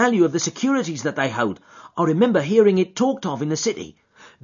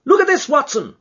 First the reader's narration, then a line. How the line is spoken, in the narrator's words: he cried